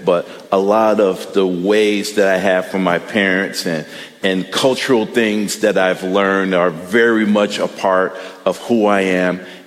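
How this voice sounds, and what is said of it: Midwestern American accent. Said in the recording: “we are very much Midwestern kids, and I have zero Southern accent”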